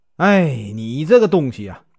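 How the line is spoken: Furious. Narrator (Chinese): 老爷勃然大怒

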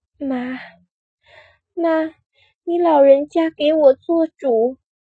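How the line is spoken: Dazed sobbing. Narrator (Chinese): 他 迷迷糊糊 呜呜咽咽哭了起来，道

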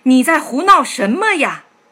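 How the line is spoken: Shouting loudly. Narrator (Chinese): 他大声喊道

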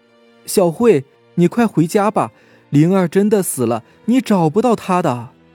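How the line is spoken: Shouting from behind. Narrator (Chinese): 后面却传来小月的喊声

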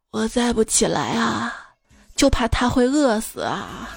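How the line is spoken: Grandmother, deep sigh. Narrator (Chinese): 他外婆长叹一口气说

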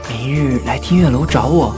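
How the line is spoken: Flirtatious low whisper. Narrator (Chinese): 少年轻薄地靠近他的耳边，低声道

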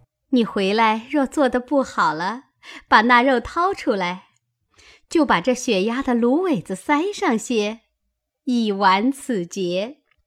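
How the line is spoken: Laughing. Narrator (Chinese): 宝钗笑道

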